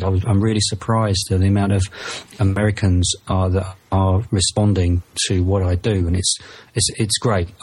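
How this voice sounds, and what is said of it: British accent. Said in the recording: “my accent, maybe it's because I'm from the UK”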